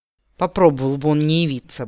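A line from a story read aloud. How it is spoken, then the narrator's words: Grumbling. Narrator (Russian): буркнул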